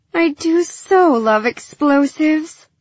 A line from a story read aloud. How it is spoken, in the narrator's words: Gilly sighed